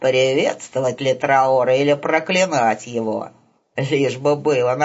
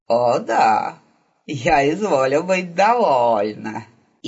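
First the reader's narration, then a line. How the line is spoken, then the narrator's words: Hissing laugh. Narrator (Russian): изо рта ее вырвался смех, похожий на шипение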